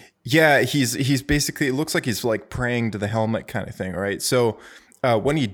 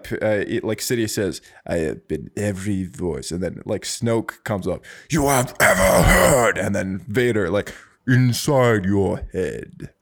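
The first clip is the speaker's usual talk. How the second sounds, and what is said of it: Imitates Star Wars villain voices. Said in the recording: “That was actually a really good impression”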